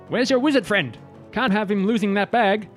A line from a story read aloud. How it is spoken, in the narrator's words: yells